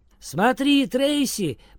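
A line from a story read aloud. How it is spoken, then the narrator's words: Shouting. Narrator (Russian): прокричала Барбара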